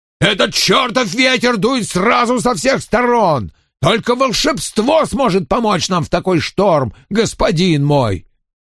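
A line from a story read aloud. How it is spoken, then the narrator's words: Angry roar. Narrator (Russian): В гневе капитан проревел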